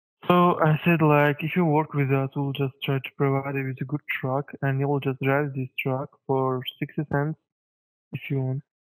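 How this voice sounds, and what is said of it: Hard-to-follow accent. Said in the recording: “I am having a hard time following your accent.”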